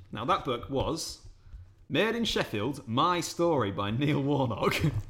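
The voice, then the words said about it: Put-on Sheffield accent. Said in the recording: “Are you always going to do that accent when you read it? ... hopefully we don't play away in Sheffield because I'm going to insult some people.”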